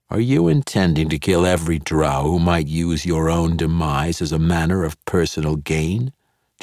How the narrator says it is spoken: Jarlaxle asked

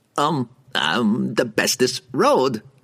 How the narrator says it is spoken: the merchant stammered

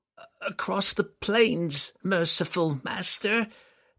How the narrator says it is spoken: Telshaz cried

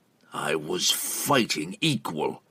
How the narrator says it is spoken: Entreri said through gritted teeth

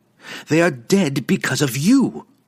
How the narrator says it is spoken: she cried, spinning back at Drizzt and pointing accusingly

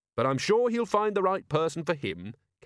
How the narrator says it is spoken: Carrot added cheerfully

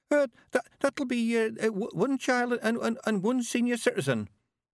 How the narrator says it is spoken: the young man quavered

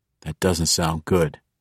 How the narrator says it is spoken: whispered

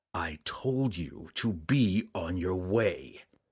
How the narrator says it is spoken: Drizzt said grimly

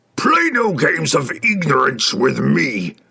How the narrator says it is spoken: the demon bellowed

